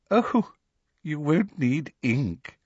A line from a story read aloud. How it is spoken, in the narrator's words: said Professor Umbridge, with the merest suggestion of a laugh in her voice